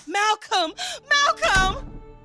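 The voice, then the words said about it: Screaming. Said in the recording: “why are you screaming like that?”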